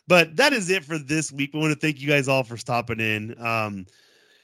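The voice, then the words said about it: Congested, sick-sounding voice. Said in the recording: “I've had a sinus infection, so I'm feeling like garbage. You may see how my voice is a little bit different.”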